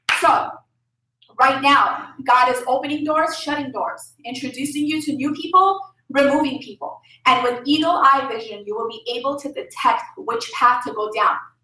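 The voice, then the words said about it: Lebanese accent while preaching. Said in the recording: “my accent comes out, so I know I'm saying some words like all jacked up ... I'm from Lebanon. It comes out sometimes ... I'm saying words all messed up”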